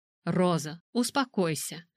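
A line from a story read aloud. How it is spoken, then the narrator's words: Gentle. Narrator (Russian): мягко сказала Альберта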